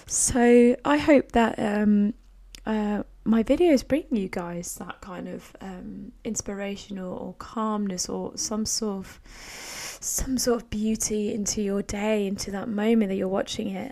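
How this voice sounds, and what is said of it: Croaky, strained voice. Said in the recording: “my voice is a little bit hard work today, and it's a bit croaky. It's not sore”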